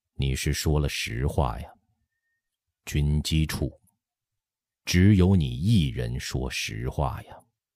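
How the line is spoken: Sighing. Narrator (Chinese): 乾隆叹息一声，说

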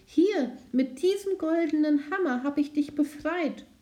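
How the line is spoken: Servant calling out. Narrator (German): rief die Dienerin

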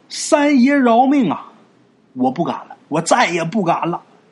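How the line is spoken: Hurried pleading cry. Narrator (Chinese): 丽娟这时候赶紧喊

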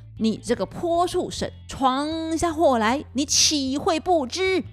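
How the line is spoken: Plain. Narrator (Chinese): 孙悟空说

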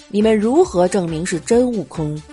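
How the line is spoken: Deep grave voice. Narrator (Chinese): 如来沉声道

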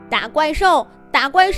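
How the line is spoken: Group chanting shouts. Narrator (Chinese): 他们一边打一边喊

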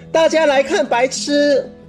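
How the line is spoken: Loud. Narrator (Chinese): 大声说

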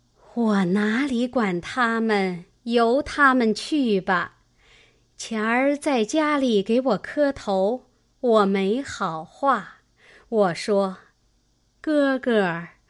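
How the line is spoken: Sighing. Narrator (Chinese): 赖妈妈叹道

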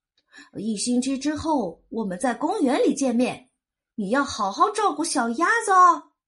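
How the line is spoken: Quacking call. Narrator (Chinese): 回头嘎嘎的叫道

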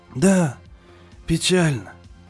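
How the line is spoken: Grandfather quietly repeating. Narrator (Russian): тихо повторил дедушка

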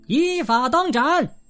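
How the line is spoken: Loud officer's answer. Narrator (Chinese): 军法官大声回答说

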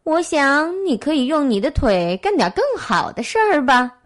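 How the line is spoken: Slight smile. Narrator (Chinese): 野兔微微一笑

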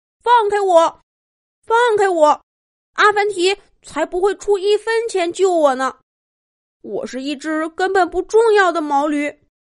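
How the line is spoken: Frantic loud shouting. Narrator (Chinese): 塔塔挣扎着狂叫，大声说

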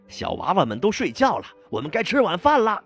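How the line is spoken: Bursting loud shout. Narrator (Chinese): 想按捺住自己，却终于忍不住大声叫道

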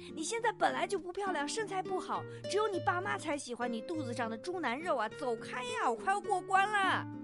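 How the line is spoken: Furious. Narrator (Chinese): 我怒发冲冠

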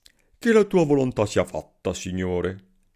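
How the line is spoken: Exclaimed. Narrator (Italian): esclamò Selim

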